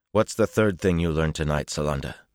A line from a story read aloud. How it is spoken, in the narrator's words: said roughly